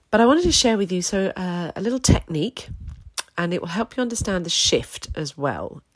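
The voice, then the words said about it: Croaky, hoarse voice. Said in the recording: “my voice is a bit croaky... I'm still recovering”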